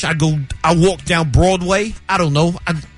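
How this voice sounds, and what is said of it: Put-on New York accent. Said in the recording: “the least sexiest would be the New York accent. And what would that sound like... That was more Joey from Friends... It was very Italian of you.”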